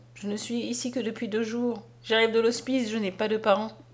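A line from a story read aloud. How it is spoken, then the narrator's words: Sad little boy. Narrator (French): dit tristement le petit garçon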